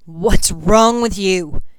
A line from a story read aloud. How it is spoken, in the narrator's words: he roared